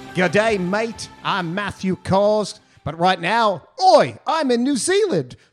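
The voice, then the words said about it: Put-on Australian-sounding accent. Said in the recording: “was that really a New Zealand accent? ... It sounded kind of Aussie.”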